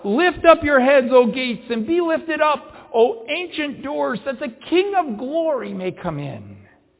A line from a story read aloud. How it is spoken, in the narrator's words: The angels, the hosts of heaven which accompany him, shout out